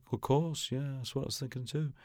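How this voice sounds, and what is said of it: Imitates another person's laid-back voice. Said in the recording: “I don't do a very good impression of him ... He's got the most wonderful, sort of laid-back manner.”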